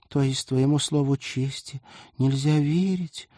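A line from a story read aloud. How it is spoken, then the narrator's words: Sad question. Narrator (Russian): грустно уточнила Полина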